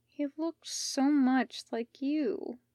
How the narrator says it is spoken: Steph let out, half whispering

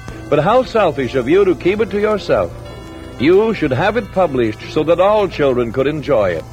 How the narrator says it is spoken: exclaimed

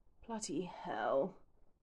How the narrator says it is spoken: sighs at last

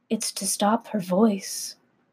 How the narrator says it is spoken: Tiev pauses and quietly answers

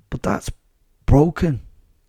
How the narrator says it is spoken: gasped

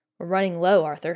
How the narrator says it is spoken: she sighed

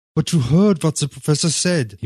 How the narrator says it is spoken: he moaned

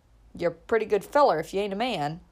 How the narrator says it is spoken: chuckled Uncle Bobby

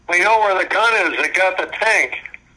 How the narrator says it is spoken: one of them yelled up to me

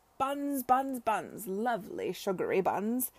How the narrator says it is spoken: exclaimed Arthur by way of explanation

